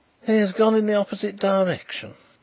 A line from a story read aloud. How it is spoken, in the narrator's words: exclaimed Mr